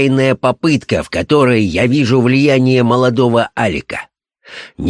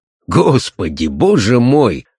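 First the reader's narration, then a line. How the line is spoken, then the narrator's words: Laughing colonel. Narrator (Russian): рассмеялся полковник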